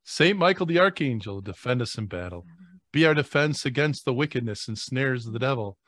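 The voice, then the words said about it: Radio voice. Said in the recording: “I feel like I got a radio voice on tonight.”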